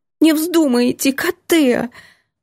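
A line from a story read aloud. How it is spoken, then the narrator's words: Sobbing, angry. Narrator (Russian): Лялька снова всхлипывает и сердито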